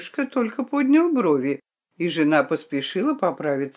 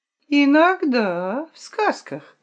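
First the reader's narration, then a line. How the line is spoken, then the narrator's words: Drawling. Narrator (Russian): протянула тетя Гвен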